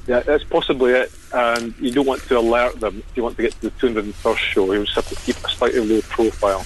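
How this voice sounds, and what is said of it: Scottish accent. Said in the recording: “Scottish brogue”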